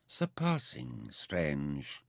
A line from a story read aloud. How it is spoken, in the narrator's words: Mintaka agreed grimly